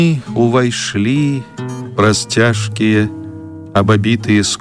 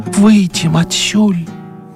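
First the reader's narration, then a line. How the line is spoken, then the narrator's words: Hoarse whisper. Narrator (Belarusian): хрыпла прашаптала яна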